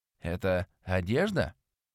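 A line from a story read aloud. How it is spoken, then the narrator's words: Pleasant, slightly hoarse girl. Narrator (Russian): Приятным, чуточку хрипловатым после пробуждения голосом спросила девушка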